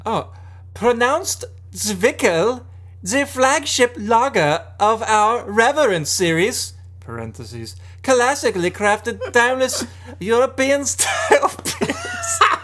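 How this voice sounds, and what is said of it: Put-on German accent. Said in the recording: “Try to read it in a German accent.”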